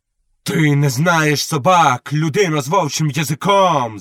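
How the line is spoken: Shouted. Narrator (Ukrainian): закричав Вонтола

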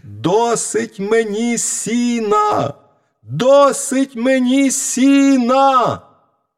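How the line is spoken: Shout again. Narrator (Ukrainian): мізинчик закричав знову

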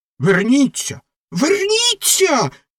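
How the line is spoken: Shrieking. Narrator (Ukrainian): заверещала ракета

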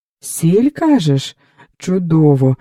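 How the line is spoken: Joyful exclaim. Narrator (Ukrainian): радісно вигукнув Потоцький

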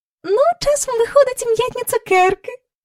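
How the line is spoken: Joyful. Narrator (Ukrainian): радісно сказала місіс Корі

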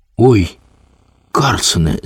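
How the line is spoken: Frightened child's call. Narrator (Ukrainian): злякано гукнув малий

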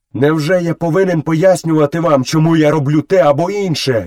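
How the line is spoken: Furious shout. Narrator (Ukrainian): люто закричав Мауглі

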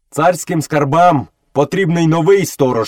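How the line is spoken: Stern boy. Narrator (Ukrainian): суворо сказав хлопчик

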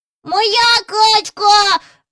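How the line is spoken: Shrieking. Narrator (Ukrainian): верещав Джон

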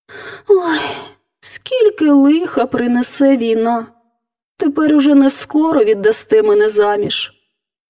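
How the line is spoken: Girl sighing. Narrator (Ukrainian): зітхнула дівчина

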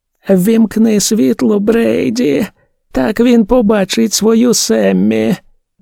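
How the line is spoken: Lifeless voice. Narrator (Ukrainian): Тим самим безживним голосом Дебора Енн промовила

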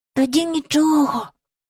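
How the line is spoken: Whisper. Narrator (Ukrainian): прошепотів Майкл до Джейн

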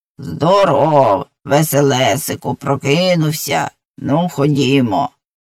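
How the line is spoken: Grinding but friendly voice. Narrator (Ukrainian): скриготливим, але зовсім не страшним голосом сказало

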